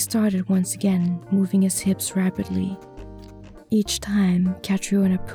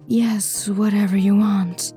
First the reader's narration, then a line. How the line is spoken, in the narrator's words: he moaned